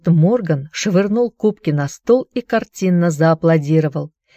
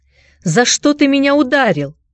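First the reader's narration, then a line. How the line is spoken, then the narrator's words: Shouting. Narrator (Russian): крикнул он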